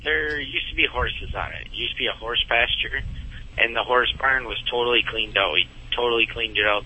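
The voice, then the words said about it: Minnesota accent. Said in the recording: “With the Minnesota accent, it even sounds classier.”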